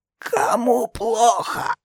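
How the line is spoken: Hoarse wheeze. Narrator (Russian): прохрипел Колтей

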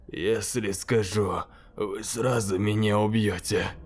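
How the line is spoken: Weak voice. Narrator (Russian): слабым голосом заговорил

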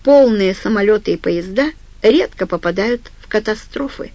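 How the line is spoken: Plain. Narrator (Russian): сказал Глен

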